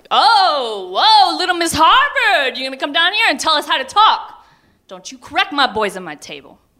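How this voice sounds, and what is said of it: Booming imitated father's voice. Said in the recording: “in that booming voice of my childhood”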